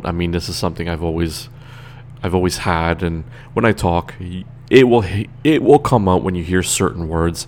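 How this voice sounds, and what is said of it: Slight accent on certain words. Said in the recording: “You do hear my accent coming out ... When I speak, you will hear the accent coming out a little bit.”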